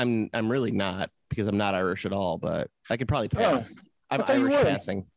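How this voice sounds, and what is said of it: Usual voice. Nothing is said of it.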